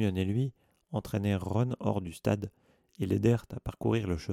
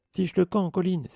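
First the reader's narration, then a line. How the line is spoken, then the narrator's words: Angry shout. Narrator (French): s'écria Harry avec colère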